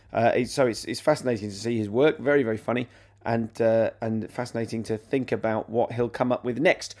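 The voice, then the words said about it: Sick, unwell-sounding voice. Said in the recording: “I'm poorly at the moment, as you can probably hear from my voice”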